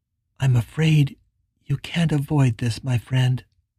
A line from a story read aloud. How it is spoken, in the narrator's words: Billy said quietly